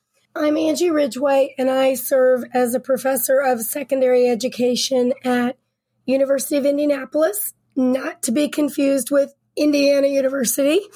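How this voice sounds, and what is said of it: Voice rough from a cold. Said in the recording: “Sorry about my voice. I've had a cold”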